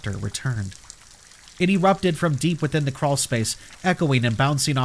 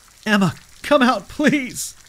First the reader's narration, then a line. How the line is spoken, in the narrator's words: I begged